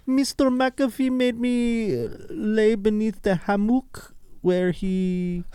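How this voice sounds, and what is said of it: Put-on accent. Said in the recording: “I don't know if you need the accent.”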